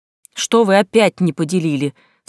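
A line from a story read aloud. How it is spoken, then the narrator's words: Stern question. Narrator (Russian): спросил так строго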